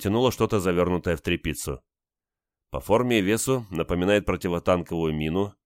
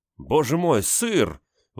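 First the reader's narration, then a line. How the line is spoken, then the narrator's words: Exclaiming. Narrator (Russian): воскликнул Хенрик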